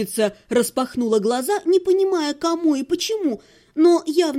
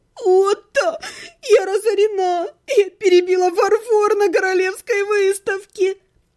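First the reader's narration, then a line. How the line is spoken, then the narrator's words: Stifled groan, half-gnome. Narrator (Russian): Полугном сдавленно застонал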